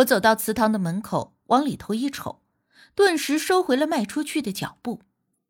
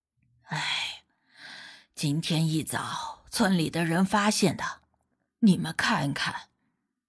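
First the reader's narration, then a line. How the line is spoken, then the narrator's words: Sighing while walking. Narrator (Chinese): 大爷 一边走一边叹气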